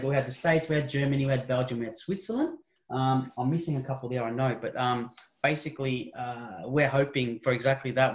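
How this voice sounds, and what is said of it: Australian accent. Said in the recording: “you can probably tell from our accents, there's no secret. We're a bunch of friends from Australia”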